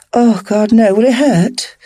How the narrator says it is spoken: moaned, a big grin stretched across my face

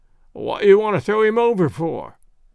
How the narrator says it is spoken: questioned the sailor, in a querulous voice

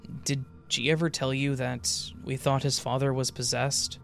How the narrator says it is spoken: he asked

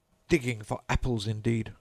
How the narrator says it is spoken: said the rabbit angrily

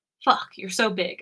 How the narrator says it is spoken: I moan

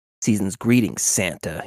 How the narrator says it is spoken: he hissed

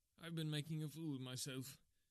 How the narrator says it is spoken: he gasped

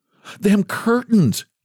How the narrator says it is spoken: gasped she

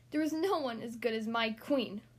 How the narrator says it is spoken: he snapped

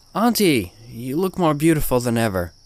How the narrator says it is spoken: I exclaimed

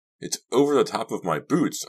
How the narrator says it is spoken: I cried

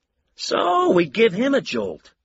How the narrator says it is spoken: Lou said brightly

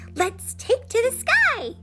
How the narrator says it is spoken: she exclaimed

